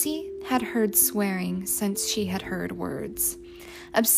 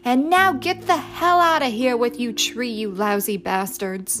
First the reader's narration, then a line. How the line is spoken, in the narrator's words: The tree man eulogized them by screaming